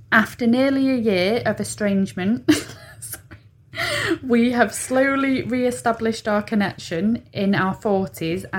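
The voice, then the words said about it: Manchester accent. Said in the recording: “our origins are in Manchester, where we both spent our childhoods, as you can probably tell by the accent.”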